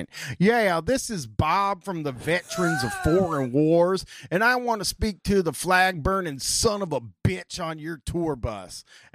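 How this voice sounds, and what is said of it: Stern put-on southern accent. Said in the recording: “in a stern southern accent.”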